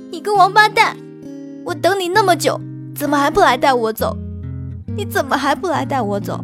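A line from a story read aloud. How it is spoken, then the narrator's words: Loud crying. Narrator (Chinese): 李唐冠哭得更大声了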